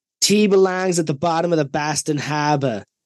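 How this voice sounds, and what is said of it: Put-on Boston accent. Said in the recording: “I just want to say this one in Matt's accent ... I think that was good Boston accent”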